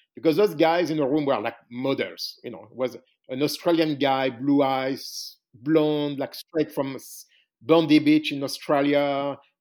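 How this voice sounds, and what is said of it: French accent. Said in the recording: “You've got that French accent”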